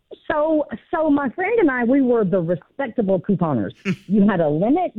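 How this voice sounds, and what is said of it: Southern US accent. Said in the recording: “That was my southern accent.”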